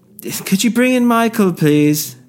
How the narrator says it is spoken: He shouted

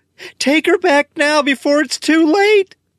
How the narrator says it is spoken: Helen screams

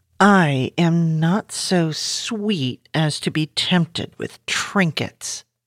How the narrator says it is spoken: Jane muttered

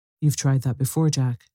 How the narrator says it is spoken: she said

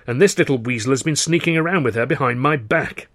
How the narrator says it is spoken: I bellowed

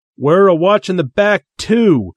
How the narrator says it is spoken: the recently appointed Grand Wizard shouted

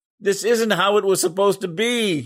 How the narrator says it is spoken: he screamed

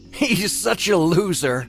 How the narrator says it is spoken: Blake laughed

